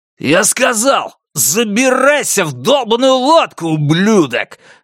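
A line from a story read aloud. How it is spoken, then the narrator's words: Angry bark. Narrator (Russian): рявкнул Ванни Фуччи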